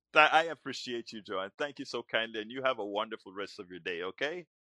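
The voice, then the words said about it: Speaks with a noticeable accent. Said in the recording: “I love to hear your accent.”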